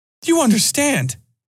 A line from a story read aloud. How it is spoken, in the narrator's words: Ollie almost shouted